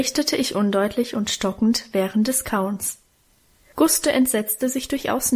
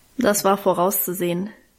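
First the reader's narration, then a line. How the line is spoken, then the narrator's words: Dry remark. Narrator (German): meinte sie trocken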